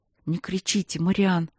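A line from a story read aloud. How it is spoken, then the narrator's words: Whispered plea, young woman. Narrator (Russian): шепотом попросила девушка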